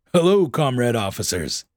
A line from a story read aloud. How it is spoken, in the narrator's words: said cheerfully, benevolently, and contentedly